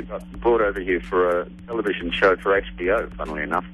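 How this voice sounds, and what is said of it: Australian accent. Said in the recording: “I'm detecting the accent. ... Australia.”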